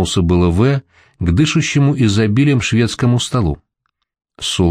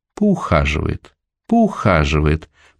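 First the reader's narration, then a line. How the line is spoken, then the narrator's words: Drawn-out drawl. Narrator (Russian): протянул он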